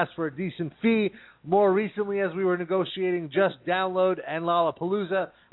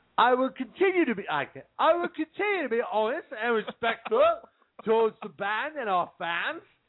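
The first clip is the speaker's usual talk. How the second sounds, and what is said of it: Attempted British accent. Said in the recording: “This should be in a British accent ... Not that bad ... I can't do it.”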